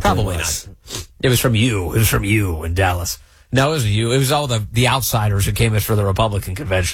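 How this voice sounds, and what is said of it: Voice with a cold, throaty. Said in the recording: “I've got to clear my throat a little bit. ... I've got a little bit of a cold ... I have to keep muting a little bit so I can cough, hack along up”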